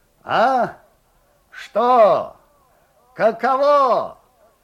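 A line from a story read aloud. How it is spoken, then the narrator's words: Muffled shouting from darkness. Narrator (Russian): глухо кричал Лукьян Степанов из темноты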